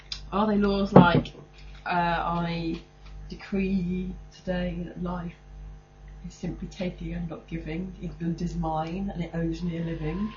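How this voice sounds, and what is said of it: Voice with a head cold. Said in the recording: “I've got a bit of a cold. ... not as much of a bit of a cold as what I've got.”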